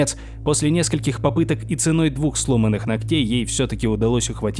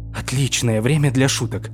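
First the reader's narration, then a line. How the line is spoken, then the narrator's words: Grumbling. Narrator (Russian): проворчала Флориан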